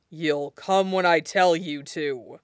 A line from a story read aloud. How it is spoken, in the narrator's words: growls, surprising himself